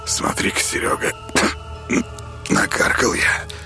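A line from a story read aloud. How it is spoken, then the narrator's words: Hoarse wheeze. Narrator (Russian): прохрипел охотник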